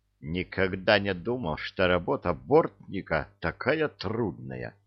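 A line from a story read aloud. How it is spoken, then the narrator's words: Whisper. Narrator (Russian): прошептал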